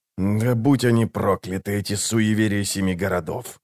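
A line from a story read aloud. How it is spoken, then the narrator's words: Quiet cursing. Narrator (Russian): тихо выругался он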